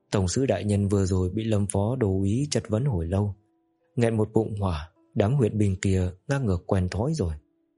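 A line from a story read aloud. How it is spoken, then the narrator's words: Weary sigh, still angry. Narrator (Vietnamese): Trình Minh thở dài một hơi, ngữ khí mệt mỏi lại vẫn nộ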